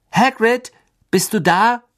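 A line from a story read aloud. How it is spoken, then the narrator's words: Calling out. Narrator (German): rief Harry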